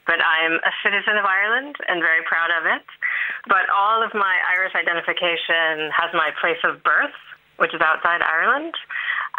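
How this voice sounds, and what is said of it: Non-Irish accent. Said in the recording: “I was born outside Ireland, which you can probably tell from my accent.”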